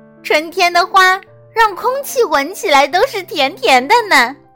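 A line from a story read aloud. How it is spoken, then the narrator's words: Deep-breath admiring sigh. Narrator (Chinese): 安娜深吸一口气，感叹道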